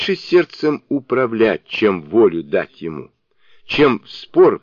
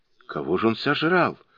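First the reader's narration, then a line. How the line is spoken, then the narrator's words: Frightened, sinking voice. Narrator (Russian): упавшим голосом спросил танский монах, испугавшись не на шутку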